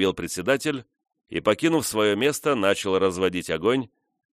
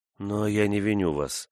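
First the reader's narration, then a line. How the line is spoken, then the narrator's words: Soft. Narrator (Russian): прибавила она мягко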